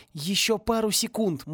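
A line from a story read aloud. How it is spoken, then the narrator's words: Silent mental plea. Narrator (Russian): мысленно взмолился Порри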